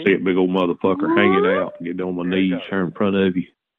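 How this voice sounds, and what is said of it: Southern US Georgia accent. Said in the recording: “you're from somewhere else because you have an accent ... Georgia ... You've been plucking the banjo too much Georgia”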